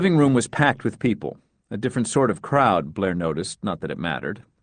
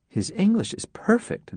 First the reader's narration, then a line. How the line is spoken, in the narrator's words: Nora whispered to Blair